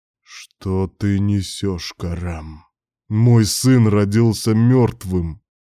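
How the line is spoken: Through clenched teeth. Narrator (Russian): Процедил сквозь плотно сжатые зубы

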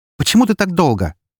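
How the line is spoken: Barked, snapping. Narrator (Russian): рявкнула Эри

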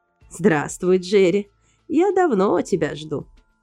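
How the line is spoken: Creaky voice. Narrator (Russian): проскрипела Маргарет Фридерс

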